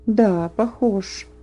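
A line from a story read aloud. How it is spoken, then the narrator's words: Mutter. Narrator (Russian): пробормотал он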